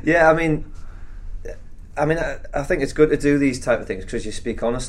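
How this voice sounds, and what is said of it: Durham accent. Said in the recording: “You're a Durham boy. I mean, the accent gives it away.”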